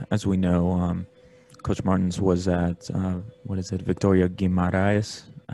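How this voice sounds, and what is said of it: Put-on Portuguese accent. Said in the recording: “putting on my Portuguese accent there”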